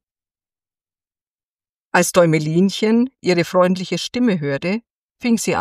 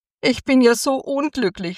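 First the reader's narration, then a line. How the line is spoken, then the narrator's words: Sobbing. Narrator (German): schluchzte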